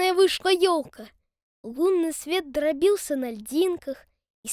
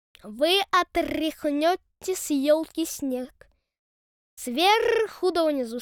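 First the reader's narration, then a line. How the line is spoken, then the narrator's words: Plain. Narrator (Russian): сказала ворона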